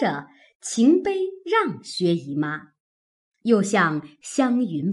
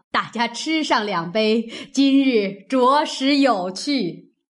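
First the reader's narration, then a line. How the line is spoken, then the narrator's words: Laughing. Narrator (Chinese): 贾母笑道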